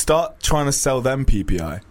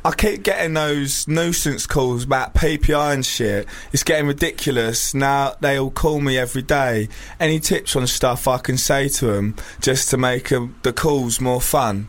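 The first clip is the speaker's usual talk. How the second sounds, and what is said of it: Put-on Chelmsford accent. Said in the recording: “I'm going to read it in Chelmsford accent.”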